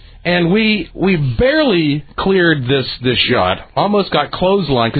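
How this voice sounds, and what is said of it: Usual voice. Nothing is said of it.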